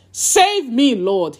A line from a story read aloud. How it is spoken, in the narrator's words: shouted